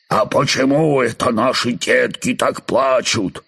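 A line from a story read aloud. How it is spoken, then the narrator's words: Father firefly, menacing question. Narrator (Russian): голос папы-светлячка грозно спрашивает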